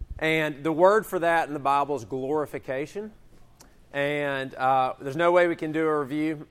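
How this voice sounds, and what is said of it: Strained voice, losing his voice. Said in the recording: “As you can tell, I'm kind of starting to lose my voice”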